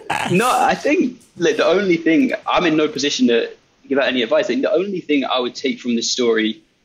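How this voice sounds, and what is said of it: English accent. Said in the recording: “your English accent there”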